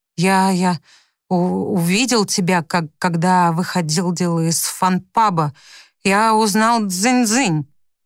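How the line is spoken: Stammering. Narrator (Russian): Он, заикаясь, отвечает

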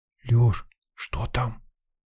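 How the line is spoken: Whispering. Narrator (Russian): прошептала Лена

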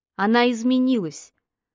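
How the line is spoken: Calmer. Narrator (Russian): уже более спокойно произнес Ник

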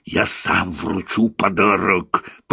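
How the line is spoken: Pig hissing. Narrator (Russian): прошипел свин

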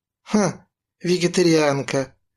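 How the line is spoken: Grumbling. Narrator (Russian): заворчал Юрка

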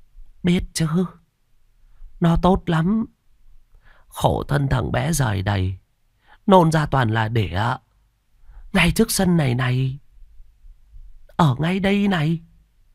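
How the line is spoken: Old woman's sad voice. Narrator (Vietnamese): Bà lão nói bằng một giọng buồn buồn

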